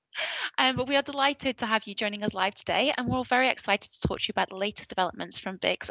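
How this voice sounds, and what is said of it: Northern accent. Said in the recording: “my northern accent”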